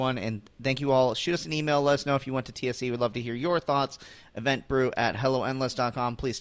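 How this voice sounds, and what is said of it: Usual voice. Nothing is said of it.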